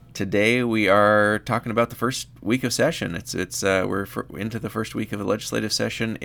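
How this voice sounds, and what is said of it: Slightly scratchy voice. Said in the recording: “my voice is a little scratchy because I went out last night”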